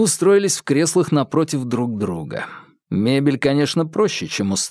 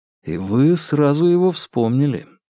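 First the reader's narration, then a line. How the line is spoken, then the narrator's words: Soft. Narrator (Russian): мягко произнес Вербин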